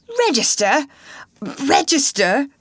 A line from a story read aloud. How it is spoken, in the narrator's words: spluttered the actor